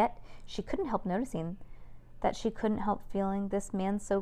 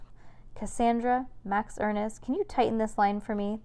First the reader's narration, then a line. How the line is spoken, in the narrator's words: host asks